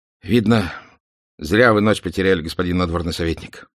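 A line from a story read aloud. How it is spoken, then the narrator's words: Sighing. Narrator (Russian): вздохнул дежурный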